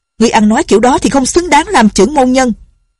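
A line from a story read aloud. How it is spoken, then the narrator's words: Shouting. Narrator (Vietnamese): Ngọc Cơ tử quát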